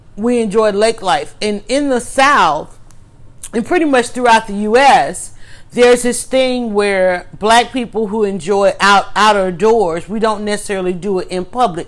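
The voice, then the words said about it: Southern Black American dialect. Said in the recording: “the southern the black dialect”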